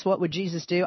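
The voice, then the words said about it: Poor put-on Southern accent. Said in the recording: “when I talk like Kentucky or the Bible. I got to do that Southern accent pretty poorly”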